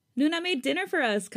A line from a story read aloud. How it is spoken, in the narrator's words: Kai yells from the bathroom